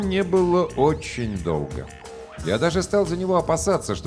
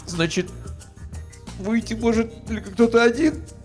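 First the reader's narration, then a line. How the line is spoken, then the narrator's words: Sudden sob. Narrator (Russian): неожиданно всхлипнул я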